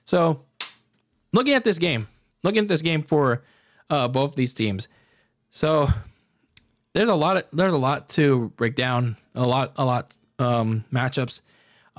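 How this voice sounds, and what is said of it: Strained, hoarse voice. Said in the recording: “I'm losing my voice”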